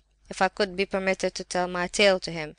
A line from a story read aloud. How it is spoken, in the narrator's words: he cried, trembling with feverish agitation and excitement